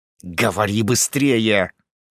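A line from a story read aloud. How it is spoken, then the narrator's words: Angry hiss. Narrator (Russian): прошипел злобно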